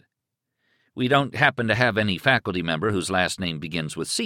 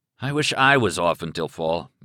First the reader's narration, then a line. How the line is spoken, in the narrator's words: Manchester sighed